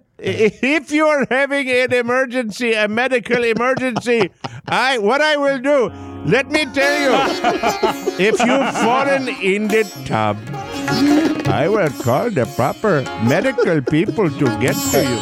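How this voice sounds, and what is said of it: Strong accent. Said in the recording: “That accent is strong and understandable.”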